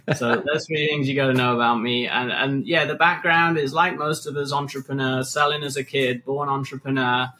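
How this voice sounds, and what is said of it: British accent. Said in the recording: “yes, the accent's British, so I sound far more intelligent than I really am”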